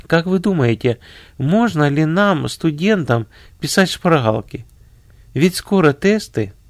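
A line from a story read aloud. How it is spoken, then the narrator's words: Timid question. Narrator (Russian): две студентки робко спросили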